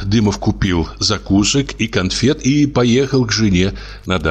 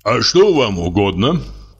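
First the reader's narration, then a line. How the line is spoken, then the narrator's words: Deep bass voice. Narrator (Russian): спросил актер басом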